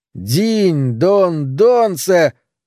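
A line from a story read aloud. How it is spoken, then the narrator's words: Loud singing. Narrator (Russian): громко запел Ланселот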